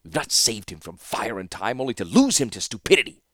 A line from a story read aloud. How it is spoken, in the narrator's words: He hissed to Malzra